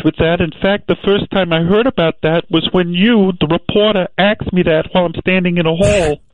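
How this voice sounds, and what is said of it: Weird voice like Lee Harvey Oswald. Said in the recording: “he's got a weird voice. He sounds a lot like Lee Harvey Oswald.”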